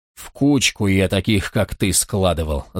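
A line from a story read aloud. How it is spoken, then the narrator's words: Growl. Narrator (Russian): зарычал он на волкодава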